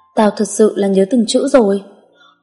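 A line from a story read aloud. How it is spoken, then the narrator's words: Startled, timid mumbled protest. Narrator (Vietnamese): khiến Đơn giật mình run lên, cô lí nhí phản kháng Thanh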